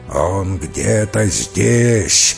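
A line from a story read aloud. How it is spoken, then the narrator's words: Angry rough growl. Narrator (Russian): злобно рычал грубый голос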